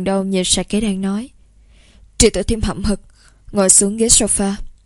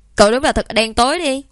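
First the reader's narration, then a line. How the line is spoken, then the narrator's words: Loud laughter. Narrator (Vietnamese): Sạ Kế Đan nghe vậy cũng phải cười lớn tiếng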